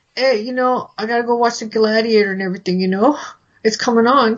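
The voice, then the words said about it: Imitates another person's voice, done badly. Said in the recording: “This is where I do my Ken Wall impression really badly.”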